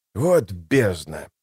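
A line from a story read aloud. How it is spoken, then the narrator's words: Sigh. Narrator (Russian): вздохнул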